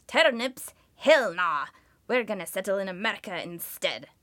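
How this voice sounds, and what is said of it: Put-on accent. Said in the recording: “Sorry about the accent.”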